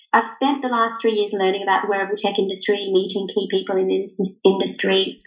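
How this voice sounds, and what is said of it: Australian accent. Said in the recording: “I'm from Australia, if you can't tell from my accent.”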